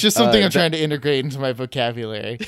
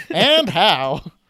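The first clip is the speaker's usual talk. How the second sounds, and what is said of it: Put-on transatlantic accent. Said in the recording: “With the transatlantic accent.”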